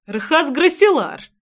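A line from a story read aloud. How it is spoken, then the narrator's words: Exclamation. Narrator (Russian): воскликнул Трейсван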